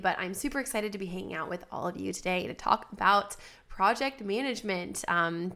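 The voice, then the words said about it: Nasal congested voice from a cold. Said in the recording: “I have a bit of a cold today, so that is why my voice sounds so nasally”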